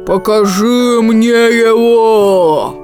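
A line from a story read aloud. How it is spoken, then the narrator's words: Bear growling. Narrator (Russian): зарычал медведь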